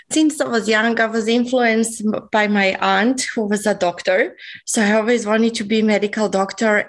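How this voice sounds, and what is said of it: Slight Serbian accent. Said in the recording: “I have a little bit of accent, so I'm actually not originally from Australia. I come from Belgrade, Serbia.”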